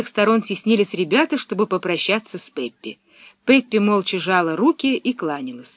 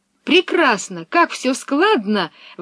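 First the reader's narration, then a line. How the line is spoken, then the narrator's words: Delighted exclamation. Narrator (Russian): воскликнула Пеппи, очень довольная стихами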